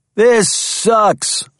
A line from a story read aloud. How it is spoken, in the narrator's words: roared Corey